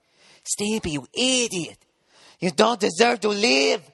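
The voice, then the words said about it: Terrible Ren and Stimpy cartoon impression. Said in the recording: “Billy West, the great voiceover guy. One of the voices of Ren and Stimpy ... terrible impression.”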